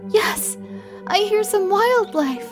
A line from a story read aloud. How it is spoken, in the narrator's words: June said cheerfully